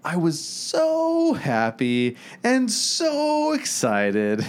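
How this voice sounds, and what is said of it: Super positive imitation of another person. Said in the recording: “If you were going to pretend to be Justin Weaver, first of all, you'd have to be super positive ... that's my Justin Weaver impersonation.”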